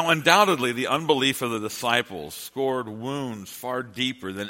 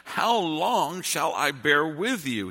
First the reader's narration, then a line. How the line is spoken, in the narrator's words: he cries